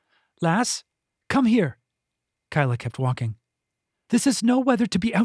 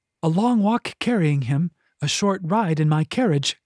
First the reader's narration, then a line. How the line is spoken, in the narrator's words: Kyla sigh